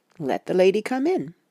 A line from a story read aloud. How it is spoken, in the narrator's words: he said cheerfully